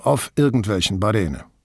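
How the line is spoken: Evasive murmur. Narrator (German): murmelte Casati ausweichend

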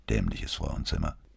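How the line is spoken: Quiet addition. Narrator (German): Leise fügte hinzu

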